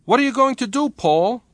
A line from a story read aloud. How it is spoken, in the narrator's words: quavered Niccolo